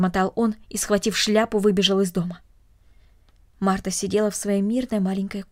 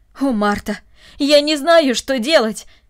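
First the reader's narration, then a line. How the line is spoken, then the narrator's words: Flustered exclamation. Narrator (Russian): воскликнул он в смущении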